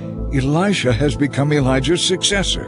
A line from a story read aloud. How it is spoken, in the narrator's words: the group of prophets from Jericho exclaimed